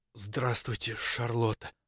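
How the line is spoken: Breathed out. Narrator (Russian): наконец выдохнул он

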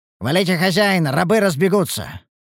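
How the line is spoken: Barked. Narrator (Russian): рявкнул Ругар

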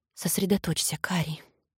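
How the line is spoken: Whisper. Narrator (Russian): прошептала

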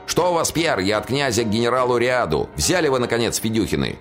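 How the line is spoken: Shouted. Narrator (Russian): Тот, что двигался из тыла, крикнул

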